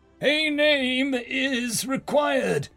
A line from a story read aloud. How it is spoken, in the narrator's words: the flaming figure bellowed